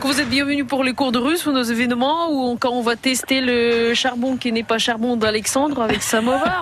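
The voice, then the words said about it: Slight foreign accent. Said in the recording (French): “j'adore le, petit accent de, de ... là. ... ça, fait plaisir que mon accent, euh, c'est euh, bien vu.”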